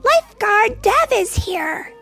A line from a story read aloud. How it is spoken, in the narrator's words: Alex shouted